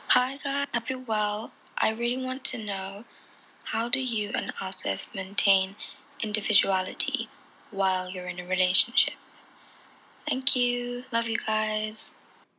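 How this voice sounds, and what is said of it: British accent. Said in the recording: “your accent is amazing. It's British, obviously.”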